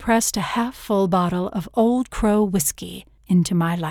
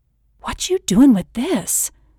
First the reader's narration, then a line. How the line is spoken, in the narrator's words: I said, whispering back